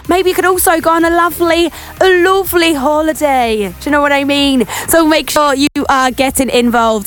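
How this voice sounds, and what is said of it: Put-on Welsh accent. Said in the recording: “I don't know where this Welsh accent has come from. I do this sometimes. I just go into random accents.”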